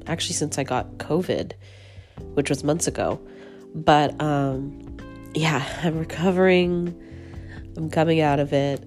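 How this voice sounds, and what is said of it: Rough, strained sick voice. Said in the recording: “my voice is a little strange because I am currently getting over the flu ... my voice is a little rough”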